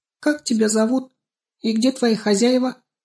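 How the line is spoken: Squeaked. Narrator (Russian): припищала тут же Банечка

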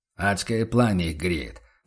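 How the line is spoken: Grumbling. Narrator (Russian): пробурчал торговец Феликс

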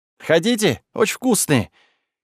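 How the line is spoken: Forced cheerful exclamation. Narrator (Russian): как можно веселее воскликнул Деймос

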